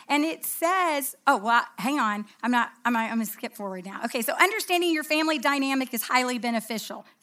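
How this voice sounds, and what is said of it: Country American accent. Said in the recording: “So I have a country accent apparently”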